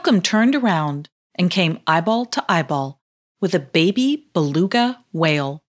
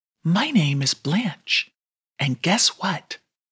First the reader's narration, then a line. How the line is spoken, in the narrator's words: whispered to Yelcom